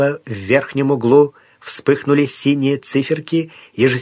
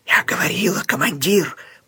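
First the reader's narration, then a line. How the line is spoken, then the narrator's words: Hoarse rasp. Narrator (Russian): прохрипела она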